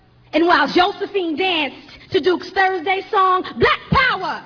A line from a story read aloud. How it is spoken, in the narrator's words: shouted Huey in the voice of a good friend of mine